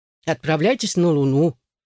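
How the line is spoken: Grumbling. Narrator (Russian): проворчал Бомпар

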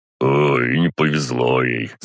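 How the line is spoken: Snorting driver. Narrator (Russian): хмыкнул водитель

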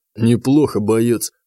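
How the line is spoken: Wry snort. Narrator (Russian): хмыкнул он

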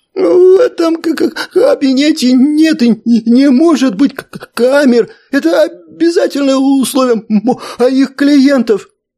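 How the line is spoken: Quick soothing, stuttering. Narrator (Russian): быстро успокоил комедианта Джаб, не переставая при этом заикаться

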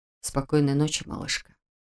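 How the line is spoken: Soft whisper. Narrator (Russian): прошептал Каган

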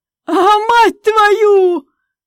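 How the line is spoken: Yelling from bathroom, cold shock. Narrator (Russian): вопила из ванной комнаты через минуту, так как этот негодяй нисколько не предупредил, что воду напустил одну холодную

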